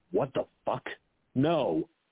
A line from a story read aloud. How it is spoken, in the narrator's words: their dad muttered